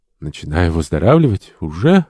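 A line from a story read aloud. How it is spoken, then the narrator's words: Weak whisper, sick woman. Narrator (Russian): прошептала больная, пытаясь улыбнуться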